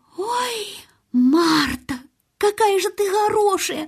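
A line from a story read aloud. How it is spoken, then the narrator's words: Exclamation. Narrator (Russian): воскликнула Мэри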